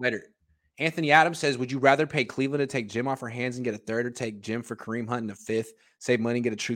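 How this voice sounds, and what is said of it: Usual voice. Nothing is said of it.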